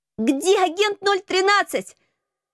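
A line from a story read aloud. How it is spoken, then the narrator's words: Yelling over fire noise. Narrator (Russian): завопила, пытаясь перекричать треск и шум пожара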